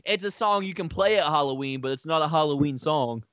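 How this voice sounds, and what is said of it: Put-on Southern US accent. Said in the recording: “the southern accent you gave him”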